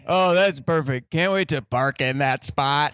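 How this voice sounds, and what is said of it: Robotic character voice. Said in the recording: “He sounded like a robot.”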